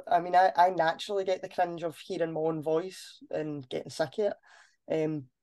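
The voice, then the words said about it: Glaswegian accent. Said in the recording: “I've just got a Glaswegian accent”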